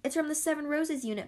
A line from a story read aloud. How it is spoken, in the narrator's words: Paulina cried, recognizing the symbol stamped on the package